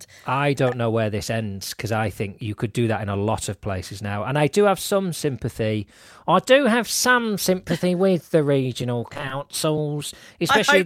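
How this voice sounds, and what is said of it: Mock council official voice. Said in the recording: “I hope that's not your Wrexham accent. ... No, this is my council bod voice.”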